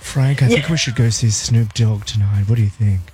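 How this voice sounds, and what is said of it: Put-on adulterer character voice. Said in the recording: “that's me doing your adultering voice”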